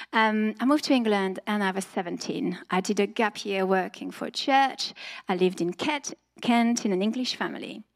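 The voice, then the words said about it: French accent. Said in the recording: “I'm French originally, you might have realized by the accent.”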